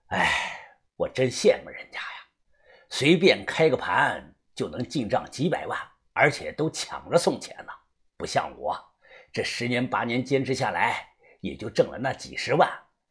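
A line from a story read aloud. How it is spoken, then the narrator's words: Sighing. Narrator (Chinese): 他叹声气说道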